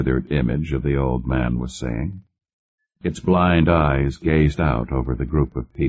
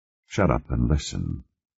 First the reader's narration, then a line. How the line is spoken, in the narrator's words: Conklin said softly